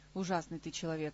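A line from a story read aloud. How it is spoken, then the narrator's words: Sigh. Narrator (Russian): вздохнул король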